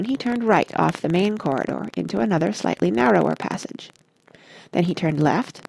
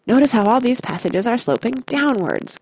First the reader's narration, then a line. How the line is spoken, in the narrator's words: called out Mr